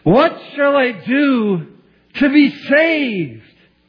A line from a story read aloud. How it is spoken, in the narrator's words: he cried aloud